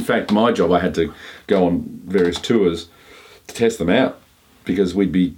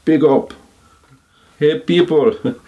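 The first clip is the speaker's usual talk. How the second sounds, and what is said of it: Put-on Caribbean accent. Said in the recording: “I'm using my Caribbean vernacular. ... Shouldn't do the accent.”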